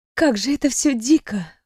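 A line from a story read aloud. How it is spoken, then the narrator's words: Breathed out. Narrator (Russian): выдохнула я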